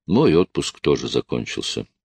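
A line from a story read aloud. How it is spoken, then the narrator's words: Sad reply. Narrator (Russian): печально отозвался я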